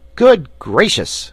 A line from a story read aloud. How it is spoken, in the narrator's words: exclaimed Button-Bright